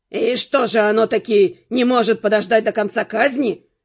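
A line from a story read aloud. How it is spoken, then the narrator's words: Grumbling. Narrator (Russian): проворчал Линфокс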